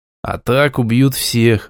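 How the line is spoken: Sigh. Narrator (Russian): вздохнул я

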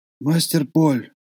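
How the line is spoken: Whispering. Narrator (Russian): зашептал он

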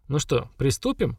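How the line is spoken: Cheerful question. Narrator (Russian): бодро спросила Хагра

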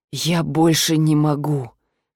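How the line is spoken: Hoarse voice. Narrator (Russian): хрипло произнес вроде бы более-менее адекватный муж

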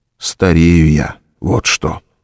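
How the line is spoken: Breathed against lips. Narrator (Russian): выдохнул он в ее мягкие немые губы

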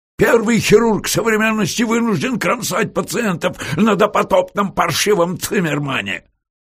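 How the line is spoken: Shouting. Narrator (Russian): кричал он

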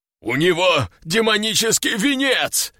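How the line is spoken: Roared. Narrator (Russian): взревел здоровяк

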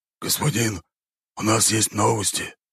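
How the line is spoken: Quiet speech. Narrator (Russian): слуга говорил тихо

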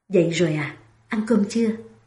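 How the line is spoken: Gentle question. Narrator (Vietnamese): Thiệu Nam dịu dàng hỏi

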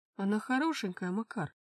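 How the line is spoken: Breathless mumble. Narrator (Russian): Задыхаясь от внезапной атаки на его спортивный пиджак, пробормотал Иван

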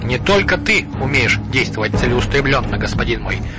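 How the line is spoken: Plain. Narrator (Russian): ответил Сухмед

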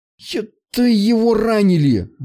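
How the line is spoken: Exclaimed. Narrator (Russian): воскликнул Влад

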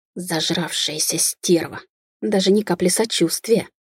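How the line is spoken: Angry hissing. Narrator (Russian): прошипела женщина

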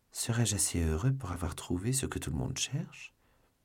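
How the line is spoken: Murmured. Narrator (French): murmura D'Artagnan

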